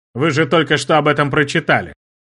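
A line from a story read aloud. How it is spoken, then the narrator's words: Mocking. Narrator (Russian): насмешливо произнес маркиз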